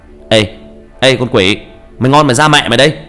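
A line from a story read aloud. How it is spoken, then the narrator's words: Loud defiant yell. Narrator (Vietnamese): Tôi hét lớn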